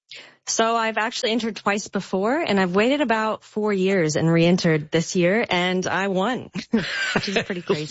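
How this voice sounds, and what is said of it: American accent. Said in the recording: “I detect an accent. ... Originally, I'm from the States. I'm from Nashville and Hawaii.”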